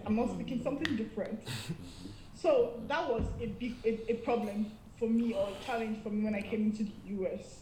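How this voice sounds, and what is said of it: Nigerian accent. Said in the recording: “Your accent is bad... accepts my own accent. I'm Nigerian and I speak English... my own accent”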